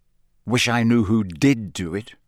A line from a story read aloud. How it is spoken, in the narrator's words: said Harry bitterly